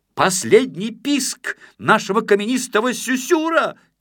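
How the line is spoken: Shouting after them. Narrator (Russian): кричал им вдогонку Гранитик

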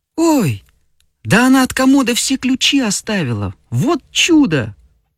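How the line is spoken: Exclaiming. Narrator (Russian): воскликнула Феня

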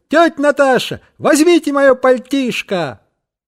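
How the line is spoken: Shout. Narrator (Russian): крикнул

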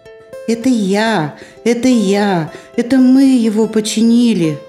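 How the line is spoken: Joyful shout, bear cub. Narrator (Russian): радостно закричал медвежонок

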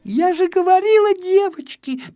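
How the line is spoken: Squeaky little girl. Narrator (Russian): пищала одна малышка

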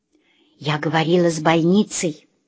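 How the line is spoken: Whispering. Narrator (Russian): шепнула мне Ленина мама

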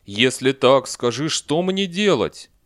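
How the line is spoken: Frightened lion shouting. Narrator (Russian): лев, не на шутку испугавшись, закричал

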